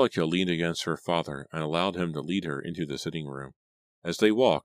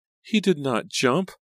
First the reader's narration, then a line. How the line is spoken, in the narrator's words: Liza cry in a shrill, frightened voice